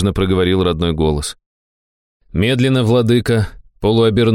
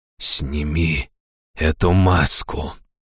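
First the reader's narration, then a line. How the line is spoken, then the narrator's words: Through gritted teeth. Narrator (Russian): процедил он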